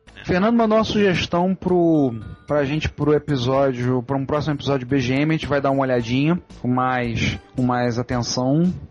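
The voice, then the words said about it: Carioca Brazilian Portuguese accent. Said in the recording (Portuguese): “apesar do nosso sotaque carioca ... a gente tenta evitar de chiar, mas às vezes é impossível”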